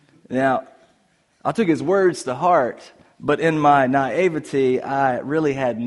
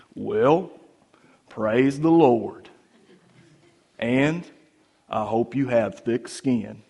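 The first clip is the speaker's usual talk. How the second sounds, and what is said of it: Appalachian accent. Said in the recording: “replied to me in his good old Appalachian accent”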